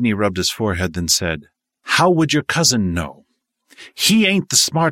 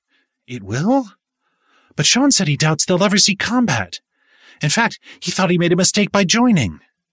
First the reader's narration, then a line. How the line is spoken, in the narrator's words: Abby blurted